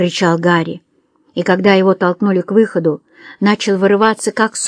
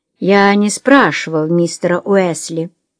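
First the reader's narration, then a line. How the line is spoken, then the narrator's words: Plain. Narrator (Russian): ответил Гарсон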